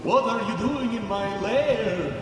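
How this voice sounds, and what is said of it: Spooky vampire-like character voice. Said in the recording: “I sound like a vampire,”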